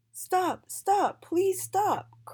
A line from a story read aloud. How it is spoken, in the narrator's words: cried Miss A